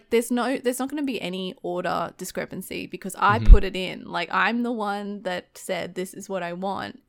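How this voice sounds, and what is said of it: Fast-paced Australian accent. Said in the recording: “I'm actually really self-conscious about my accent ... my fast-paced Australian talking”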